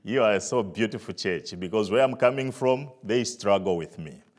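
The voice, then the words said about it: Zambian English accent. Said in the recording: “coming from Africa, Zambia ... can you understand my accent?”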